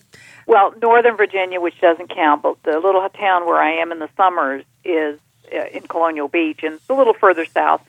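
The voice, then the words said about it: Speaking with a Southern US accent. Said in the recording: “I come down here and I start talking Southern ... I pick it up really quickly”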